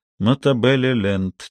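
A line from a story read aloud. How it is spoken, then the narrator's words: Quiet repetition. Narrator (Russian): тихонько повторил он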